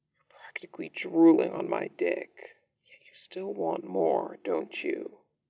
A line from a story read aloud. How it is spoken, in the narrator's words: he murmurs